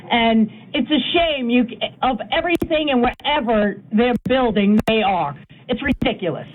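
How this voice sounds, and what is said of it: New York accent. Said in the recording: “I came from the city. You can hear it in my voice. I'm from New York”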